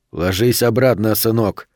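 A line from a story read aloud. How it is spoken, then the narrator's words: Calm, firm speech. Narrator (Russian): спокойно сказал Платозин с железной твердостью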